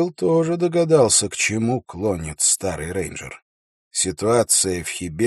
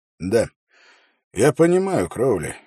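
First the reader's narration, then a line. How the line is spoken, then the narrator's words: Sighing. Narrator (Russian): вздохнул Холт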